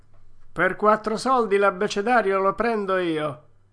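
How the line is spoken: Shouted by a peddler. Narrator (Italian): gridò un rivenditore di panni usati

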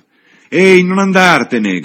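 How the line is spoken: Shout. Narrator (Italian): gridò Freddy

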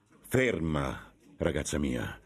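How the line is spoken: Stern voice. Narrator (Italian): disse con voce severa

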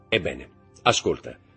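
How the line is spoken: Plain. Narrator (Italian): disse Montecristo

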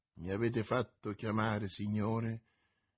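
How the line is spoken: Weak but very calm. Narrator (Italian): disse Athos a Monsieur de Tréville con voce debole, ma calmissima

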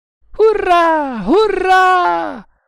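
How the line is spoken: Yelling. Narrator (Italian): urlò Baharata

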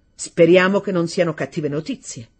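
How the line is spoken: Somewhat cold. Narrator (Italian): disse un po' freddamente

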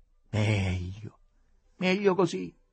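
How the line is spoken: Exclaimed. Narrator (Italian): esclamò

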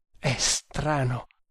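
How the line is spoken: Murmuring. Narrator (Italian): mormorava

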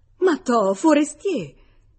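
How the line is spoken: Loud exclamation. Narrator (Italian): Esclamò ad alta voce

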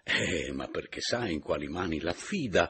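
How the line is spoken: Haughty exclamation. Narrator (Italian): esclamò alteramente Papiano

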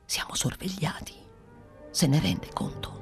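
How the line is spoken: Whispered. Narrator (Italian): soggiunse bisbigliando

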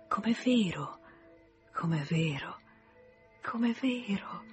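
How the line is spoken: Soft, intermittent repetition. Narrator (Italian): ripetendo piano, a intervalli

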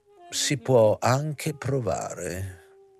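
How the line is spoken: Slow nasal voice. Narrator (Italian): disse il professore lentamente e con voce nasale

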